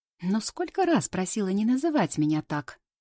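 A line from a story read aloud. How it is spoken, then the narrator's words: Indignant tutting. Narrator (Russian): Возмущенно цокает Рита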